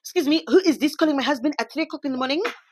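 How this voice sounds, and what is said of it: Bad put-on Parisian French accent. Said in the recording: “That's my bad Parisian accent.”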